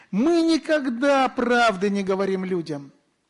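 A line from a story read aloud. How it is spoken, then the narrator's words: Mocking demon's reply. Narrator (Russian): Бес насмешливо ответил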